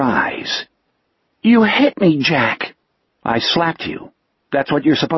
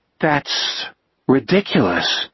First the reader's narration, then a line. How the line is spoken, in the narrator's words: Richard said slowly